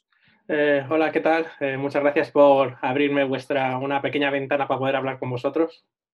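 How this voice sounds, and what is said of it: Spanish speaker with Spain accent. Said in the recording (Spanish): “hablar con españoles, escuchar ese tono ahí, ese, acento”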